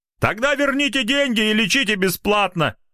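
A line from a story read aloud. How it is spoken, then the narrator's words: Sudden shout from audience. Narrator (Russian): неожиданно выкрикнул из зала красномордый гражданин с опухшей щекой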